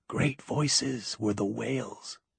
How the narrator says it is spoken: she whispered

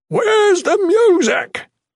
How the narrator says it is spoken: Scholes bellowed

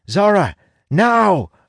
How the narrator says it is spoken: I shout

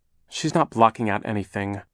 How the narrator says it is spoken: Klaus said crossly

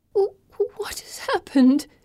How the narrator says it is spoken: Pippa whimpers

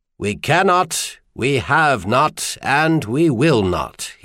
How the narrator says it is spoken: he said

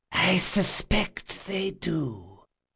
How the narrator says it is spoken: came a harsh feminine whisper from the service entrance

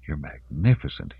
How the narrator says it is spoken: he whispered

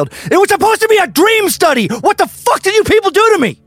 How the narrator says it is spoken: His veins bulged and his face grew red as he yelled

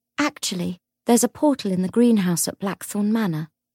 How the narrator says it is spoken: Grace said coldly

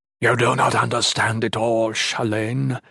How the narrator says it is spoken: Aldemar rasped

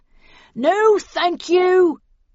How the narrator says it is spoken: yelled Snell

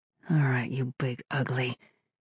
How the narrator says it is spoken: she muttered, gathering her strength

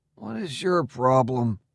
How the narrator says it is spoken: I muttered

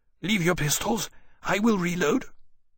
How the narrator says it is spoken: said hoarsely

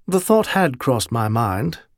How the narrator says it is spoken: Caleb said dryly

